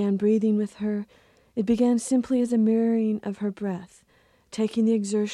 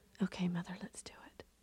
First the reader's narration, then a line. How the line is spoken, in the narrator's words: I whispered